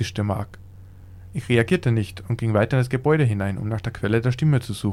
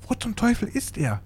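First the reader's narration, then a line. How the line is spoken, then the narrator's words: Whispered. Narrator (German): Brandon flüstern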